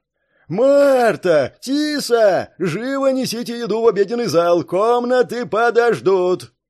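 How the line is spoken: Booming yell. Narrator (Russian): трубным голосом заорал Прест

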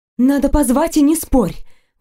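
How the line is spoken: Breathless exhale. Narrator (Russian): выдохнула

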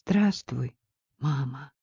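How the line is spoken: Timid. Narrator (Russian): Джейсон робко произнес

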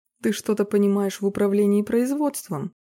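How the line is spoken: Sudden mocking tone. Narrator (Russian): Голос Роба вдруг прозвучал насмешливо

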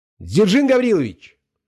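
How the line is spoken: Shout. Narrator (Russian): крикнул я

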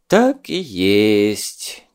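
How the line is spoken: Heavy sigh. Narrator (Russian): тяжело вздохнул он

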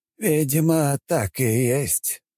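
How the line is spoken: Sighing. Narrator (Russian): вздохнул тот

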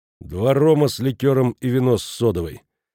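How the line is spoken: Cold reply. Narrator (Russian): Иеремеш холодно ответил

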